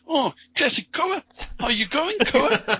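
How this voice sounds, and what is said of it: Put-on New Zealand accent. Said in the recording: “wow, that's a good New Zealand accent ... I feel like you're just doing Korg's voice there.”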